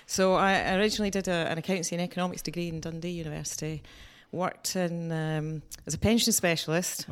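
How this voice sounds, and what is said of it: Scottish accent. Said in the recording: “obviously you can tell from my accent, I'm not from Tunbridge Wells ... I specialised in employment law in Scotland”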